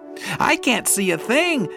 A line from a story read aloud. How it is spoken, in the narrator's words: yelled Pip